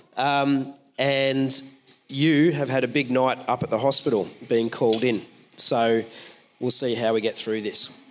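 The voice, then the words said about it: Unwell, rough-sounding voice. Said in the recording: “I sound awful. I don't have COVID. I don't have emphysema”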